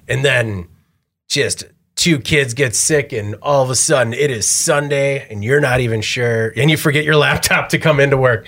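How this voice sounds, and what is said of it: Hoarse, rough, fading voice. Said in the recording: “losing my voice now because I've been doing nothing but whispering and shouting for a week ... There's not enough water in the sandpaper of a voice box.”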